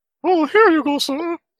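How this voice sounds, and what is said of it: Goofy put-on character voice. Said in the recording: “put on a goofy voice of some sort”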